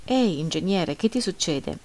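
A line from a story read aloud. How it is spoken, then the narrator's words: Friendly reproachful tone. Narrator (Italian): mi domandò con un tono di amichevole rimprovero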